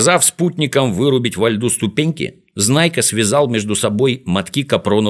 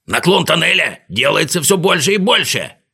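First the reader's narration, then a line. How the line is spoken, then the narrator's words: Shouting. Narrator (Russian): кричал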